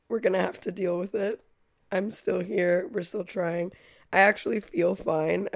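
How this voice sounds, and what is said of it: Hoarse, congested voice. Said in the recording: “My voice is a little hoarse ... I just sound like I'm in excruciating pain ... I'm a little congested”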